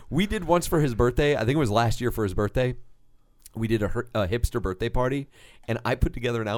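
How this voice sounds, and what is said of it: Usual voice. Nothing is said of it.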